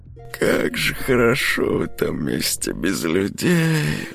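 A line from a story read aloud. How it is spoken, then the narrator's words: Inner sigh, girl. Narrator (Russian): вздохнула про себя девушка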